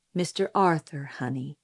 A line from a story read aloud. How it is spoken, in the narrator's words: said Atticus, gently correcting me